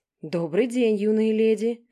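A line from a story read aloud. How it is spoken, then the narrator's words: Quiet growl. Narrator (Russian): прорычал как можно тише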